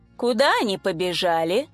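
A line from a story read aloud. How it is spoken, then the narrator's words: Lazy resigned inquiry. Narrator (Russian): Лениво поинтересовался, свыкаясь с мыслью, что сейчас придется запачкаться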